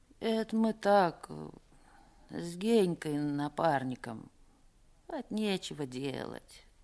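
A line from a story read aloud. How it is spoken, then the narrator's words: Mumbled. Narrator (Russian): пробормотал Пека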